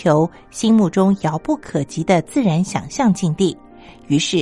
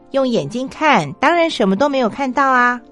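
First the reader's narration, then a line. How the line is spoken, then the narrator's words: Deliberately loud. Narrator (Chinese): 我也刻意大声的说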